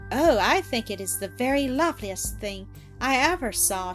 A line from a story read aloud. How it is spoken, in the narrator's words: exclaimed, in an ecstasy of admiration